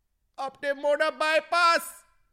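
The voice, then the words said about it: Put-on Jamaican accent. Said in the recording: “That was Jamaican. ... an interesting accent from Jamaica”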